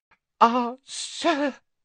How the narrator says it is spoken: he gasped

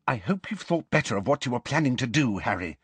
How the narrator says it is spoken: Hermione whispered

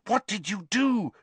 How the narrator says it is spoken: she said fiercely

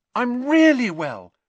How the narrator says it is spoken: she said happily

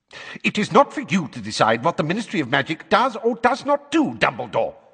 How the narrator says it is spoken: snapped

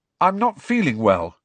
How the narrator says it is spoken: said Harry loudly

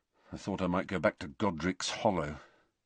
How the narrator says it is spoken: Harry muttered

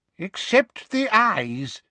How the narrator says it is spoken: said a wheezy-voiced wizard

